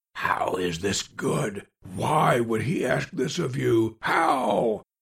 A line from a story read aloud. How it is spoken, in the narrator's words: Spare whispered loudly